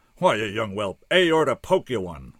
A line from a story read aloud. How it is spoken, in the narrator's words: roared the doc